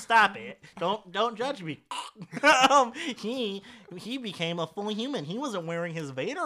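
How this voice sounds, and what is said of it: Usual voice. Nothing is said of it.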